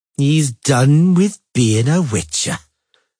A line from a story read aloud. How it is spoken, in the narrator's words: Jafnzigrin finally repeated in a drawling voice